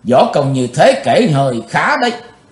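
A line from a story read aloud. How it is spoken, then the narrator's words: Cold indifferent voice. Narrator (Vietnamese): Giọng của chàng lãnh đạm thốt lên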